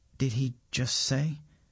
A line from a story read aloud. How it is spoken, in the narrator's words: asks Govinda in a quiet voice